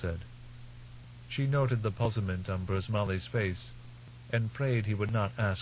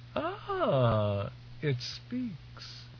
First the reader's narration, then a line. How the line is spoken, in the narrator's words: said, laughing